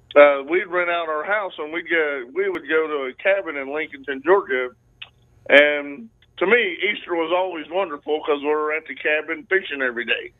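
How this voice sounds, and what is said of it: Southern Georgia drawl. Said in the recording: “that's a Georgia accent. It's a Georgia drawl. ... that twang”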